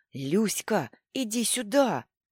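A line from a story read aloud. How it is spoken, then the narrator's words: Loud hiss. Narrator (Russian): громко зашипел мне Мишка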